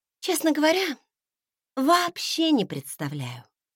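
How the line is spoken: Sighed. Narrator (Russian): вздохнула она

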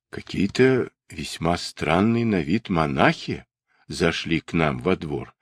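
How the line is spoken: Plain. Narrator (Russian): сказали они

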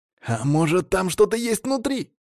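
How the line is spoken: Excited exclamation. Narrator (Russian): азартно воскликнул первый

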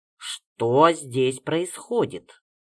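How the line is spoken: Stern question. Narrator (Russian): строго спросила Марья Васильевна

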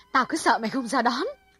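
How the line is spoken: Loud and joyful. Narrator (Vietnamese): Hằng hớn hở nói lớn

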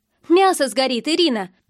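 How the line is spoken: Called loudly. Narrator (Russian): позвала я громко

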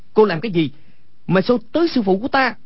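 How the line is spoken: Angry shout. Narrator (Vietnamese): Quách Tĩnh tức giận quát lên

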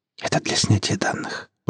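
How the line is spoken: Whispered. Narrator (Russian): прошептала она

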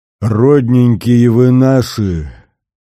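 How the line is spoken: Flushed deep-voiced cry. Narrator (Russian): басом вскричала раскраснявшаяся Глафира

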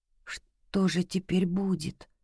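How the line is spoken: Quiet question. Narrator (Russian): тихо спросил Ждан

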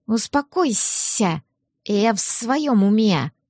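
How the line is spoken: Hissing. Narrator (Russian): прошипел Ларс

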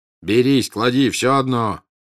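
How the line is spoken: Shout. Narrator (Russian): крикнул чей-то голос

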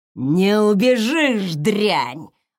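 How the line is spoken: Male voice growling from behind. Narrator (Russian): рычал позади мужской голос

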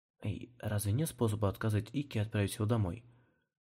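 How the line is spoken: Whispering. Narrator (Russian): Зашептал Ики

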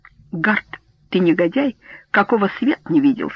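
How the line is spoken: Plain. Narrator (Russian): сказал Эббот

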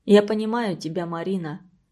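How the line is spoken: Quiet. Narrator (Russian): сказал тихо Антон

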